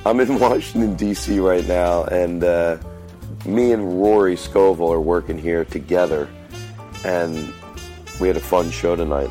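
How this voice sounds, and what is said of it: Voice congested from a cold. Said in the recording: “I have a little bit of a cold, if you hear it in my voice.”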